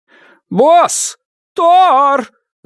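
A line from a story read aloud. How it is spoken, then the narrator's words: Yelling right in ear. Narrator (Russian): заорала Джезебел прямо мне в ухо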